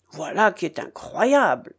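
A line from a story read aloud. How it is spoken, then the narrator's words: Grumbled. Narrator (French): grommela-t-il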